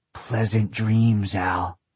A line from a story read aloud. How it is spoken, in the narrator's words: he grunted in my ear